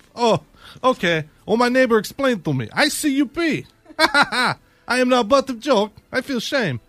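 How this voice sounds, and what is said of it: Put-on Russian woman's accent. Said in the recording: “It's hard to do a Russian chick... It sounds just like Tatiana.”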